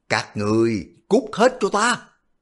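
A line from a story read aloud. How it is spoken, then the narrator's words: Furious roar. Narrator (Vietnamese): Quách Định gầm lên một tiếng giận dữ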